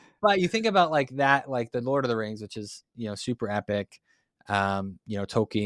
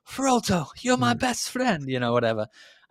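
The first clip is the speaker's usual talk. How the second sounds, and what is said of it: Poor put-on accent drifting into Boston. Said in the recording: “probably not a good accent ... That was bad ... I just went Boston. I just defaulted to that”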